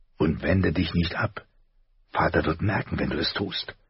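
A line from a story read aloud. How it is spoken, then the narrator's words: Whispered. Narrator (German): flüsterte er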